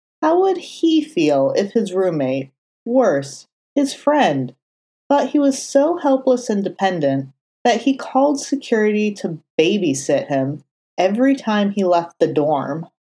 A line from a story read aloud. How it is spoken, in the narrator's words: Foggy sighed, knowing the answer